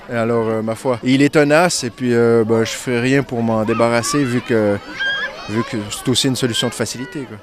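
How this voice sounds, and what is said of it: Québécois French accent. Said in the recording (French): “Puis il y a l'accent aussi... Comment ça se fait que les Québécois ne perdent pratiquement pas leur accent?... garder mon accent”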